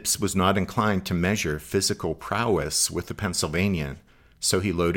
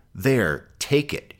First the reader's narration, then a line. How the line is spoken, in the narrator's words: spat